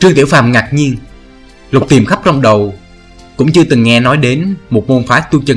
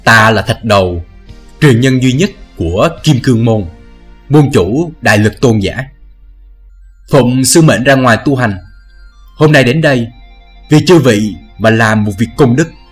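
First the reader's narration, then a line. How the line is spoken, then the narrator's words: Big man, deep booming voice. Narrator (Vietnamese): đại hán to lớn ấy giọng ồm ồm nói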